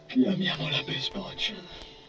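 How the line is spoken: Murmured reply. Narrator (Italian): mormorò poi in risposta

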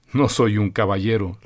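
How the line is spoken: Plain. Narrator (Spanish): le respondió Augusto

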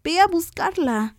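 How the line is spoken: Shouting. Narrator (Spanish): gritó

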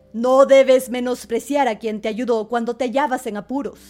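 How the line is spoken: Angry king exclaiming. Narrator (Spanish): volviéndose iracundo, el rey exclamó

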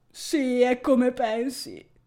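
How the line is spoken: Moaned. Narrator (Italian): geme Teo

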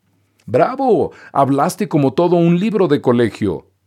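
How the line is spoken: Rascals shouting with laughter. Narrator (Spanish): gritaron los pillos esos, de la risa

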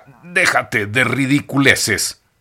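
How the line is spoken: Growled by old man. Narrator (Spanish): gruñó el viejo y harapiento hippie

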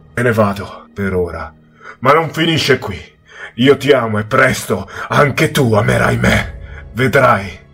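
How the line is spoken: Angry yell. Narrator (Italian): il mezz'uomo mi urlò con voce collerica

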